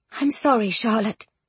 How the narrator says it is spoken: she heard Jane say in a quavering voice

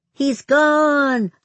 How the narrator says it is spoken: Lloyd yelled

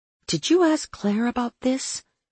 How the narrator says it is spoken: I breathed, my eyes widening

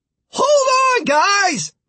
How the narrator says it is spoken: Martin shouted

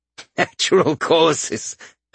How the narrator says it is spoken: The man laughed

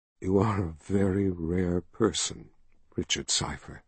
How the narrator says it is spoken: she whispered

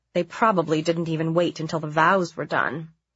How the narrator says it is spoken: grumbled

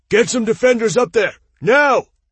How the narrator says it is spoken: Aten roared over the din

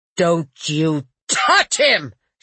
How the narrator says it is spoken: she shouted

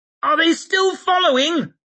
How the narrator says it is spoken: she heard Temple shriek

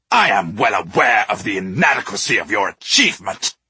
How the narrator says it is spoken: spat the Duke

